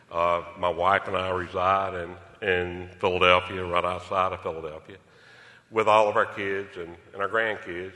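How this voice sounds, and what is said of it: South Philadelphia accent. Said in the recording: “I know y'all had already picked up on the South Philly accent.”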